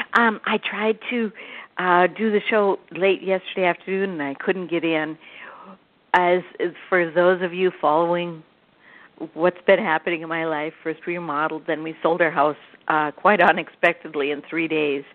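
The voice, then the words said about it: Slightly sick-sounding voice. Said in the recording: “my voice is a little sick this morning, isn't it?”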